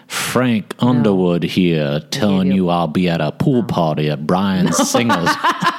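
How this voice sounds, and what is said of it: Put-on southern accent. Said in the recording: “Can you believe I'm doing this southern accent for no reason? ... lost myself as Frank Underwood.”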